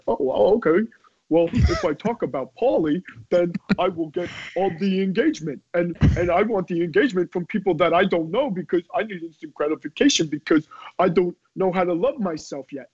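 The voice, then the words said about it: Imitates a typical Twitter user. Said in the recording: “That was my impression of everybody on Twitter.”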